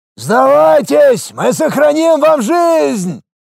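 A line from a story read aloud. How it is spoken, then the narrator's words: Thundering voice. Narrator (Russian): прогремел голос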